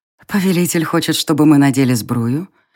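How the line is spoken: Tender seductive husky purr. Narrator (Russian): нежно промурлыкала она, подпустив в голос манящие хрипотцы

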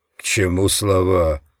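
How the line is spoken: Snorting. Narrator (Russian): фыркнул

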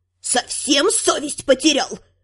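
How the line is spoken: Hissing, countess. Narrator (Russian): продолжала шипеть графиня

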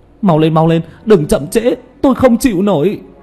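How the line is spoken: Loud cry in pain. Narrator (Vietnamese): Tứ Bảo, làn da nóng bỏng kêu xì xì, lớn tiếng kêu lên

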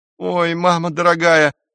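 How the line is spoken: Whimpering young man. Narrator (Russian): захныкал парень

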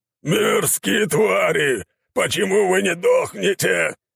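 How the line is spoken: Monstrous roar. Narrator (Russian): взревел монстр

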